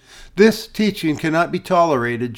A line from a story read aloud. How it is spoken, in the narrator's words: she replied